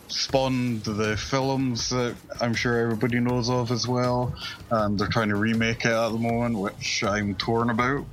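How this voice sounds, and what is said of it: Scottish accent. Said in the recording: “Just blame it on the Scottish accent. ... I love the Scottish accent.”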